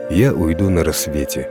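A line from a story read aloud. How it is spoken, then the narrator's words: Calm. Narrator (Russian): спокойно ответила мать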